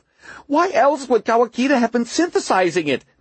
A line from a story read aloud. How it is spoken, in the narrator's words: Margot cried